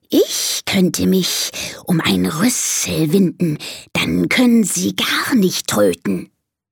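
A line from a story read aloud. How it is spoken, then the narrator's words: Snake hissing. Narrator (German): zischt die Schlange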